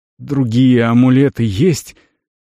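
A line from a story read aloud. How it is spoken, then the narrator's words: Strained, fighting panic. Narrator (Russian): выдавил он, борясь с наведенной паникой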